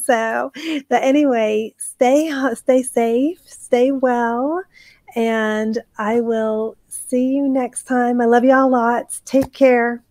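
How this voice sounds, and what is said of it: Strained, failing voice. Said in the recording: “I'm losing my voice. ... I talk too much tonight.”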